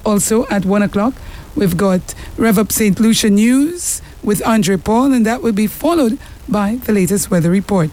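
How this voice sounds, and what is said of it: Voice not in normal condition. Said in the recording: “Must excuse my voice. Hopefully by next week, it will be back.”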